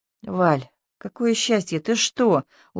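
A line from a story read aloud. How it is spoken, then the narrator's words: Crushed whisper. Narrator (Russian): убито прошептала Тамарка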